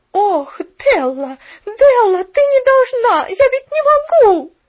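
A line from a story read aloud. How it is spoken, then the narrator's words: Agitated shouting. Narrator (Russian): Взволнованно кричала она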